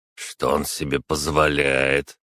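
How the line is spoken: Unkind stocky boyar's mutter. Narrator (Russian): Недобро пробурчал коренастый невысокий боярин

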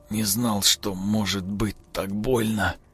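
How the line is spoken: Exhausted wheeze. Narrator (Russian): прохрипел Родион, обессиленно

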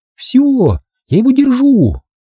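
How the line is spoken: Joyful shout. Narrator (Russian): Рен радостно крикнула

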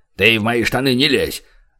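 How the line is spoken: Snapping retort. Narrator (Russian): огрызнулся мистер

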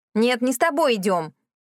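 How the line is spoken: Growl. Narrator (Russian): рыкнула она

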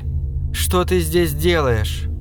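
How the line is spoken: Tired question. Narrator (Russian): Устало спрашиваю я

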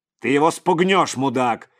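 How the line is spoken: Barking into ear. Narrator (Russian): рявкнул Клуша в ухо бывшему десантнику

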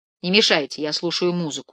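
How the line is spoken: Plain. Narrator (Russian): сказал я

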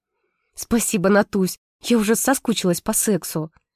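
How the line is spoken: Whisper. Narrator (Russian): шепнула подруга

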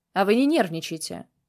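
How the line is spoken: Sharp shout. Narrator (Russian): прикрикнул я

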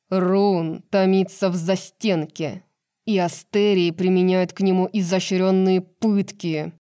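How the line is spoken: Growling. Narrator (Russian): прорычал Флин

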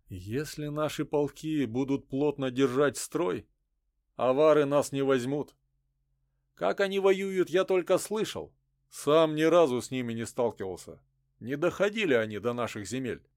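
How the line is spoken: Gloomy. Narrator (Russian): мрачно ответил Чурила

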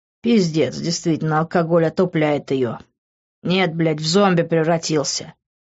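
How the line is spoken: Said through clenched teeth. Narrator (Russian): процедил я

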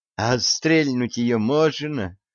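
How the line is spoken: Moaning. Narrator (Russian): простонала Прибрана

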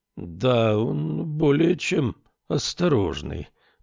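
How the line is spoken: Drawling. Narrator (Russian): протянул Адамберг

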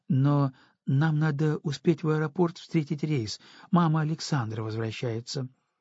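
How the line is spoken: Hesitant nanny. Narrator (Russian): неуверенно проговорила няня

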